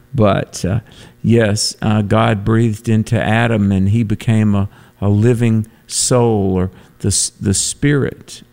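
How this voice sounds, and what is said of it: North Carolina Southern accent. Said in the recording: “my North Carolina brogue”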